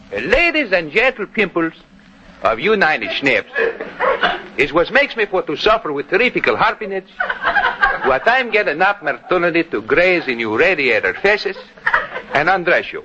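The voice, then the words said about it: Comic put-on Greek accent. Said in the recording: “Greek dialect of yours? You know, your imitation of that vaudeville actor, George Gibbon”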